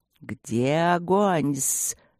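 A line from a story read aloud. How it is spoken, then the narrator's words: Remembered nighttime hiss. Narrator (Russian): ночное шипение хвостатой гости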